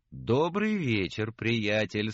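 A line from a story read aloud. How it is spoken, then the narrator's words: Cheerful. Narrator (Russian): сказал весело Отто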